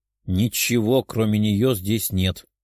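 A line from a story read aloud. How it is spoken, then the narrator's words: Grumbled. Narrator (Russian): проворчала вторая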